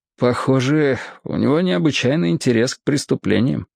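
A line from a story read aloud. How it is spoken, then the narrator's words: Low voice. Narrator (Russian): сказал вполголоса Мирдин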